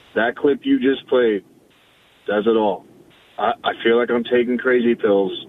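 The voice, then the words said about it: Hoarse, strained, nearly lost voice. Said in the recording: “I lost my voice screaming last night”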